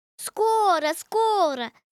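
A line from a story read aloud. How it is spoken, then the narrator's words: Ducks shouting together. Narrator (Russian): закричали все утки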